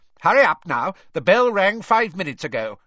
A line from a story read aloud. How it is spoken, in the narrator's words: she barked at them